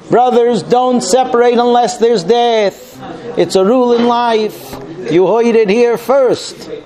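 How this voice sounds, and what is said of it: Put-on Brooklyn accent. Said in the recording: “I gave you a Brooklyn accent.”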